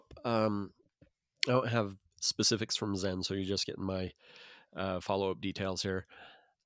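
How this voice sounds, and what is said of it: Raspy voice. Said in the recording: “a voice that's raspy”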